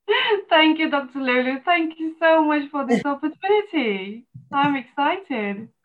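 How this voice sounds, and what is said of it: English accent. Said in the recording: “All the way from England, I think, with all that beautiful accent.”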